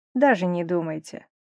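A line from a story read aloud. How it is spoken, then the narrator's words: Dry. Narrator (Russian): сухо сказал он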